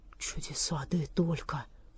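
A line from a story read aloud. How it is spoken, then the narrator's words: Whisper. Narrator (Russian): прошептал он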